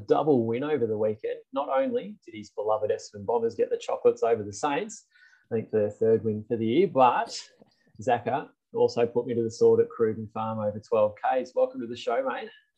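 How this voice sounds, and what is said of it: Smooth radio presenter intro voice. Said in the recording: “you've got that intro voice. It's just very nice to hear, mate. ... it sounds pretty smooth. ... Just working on my radio voice.”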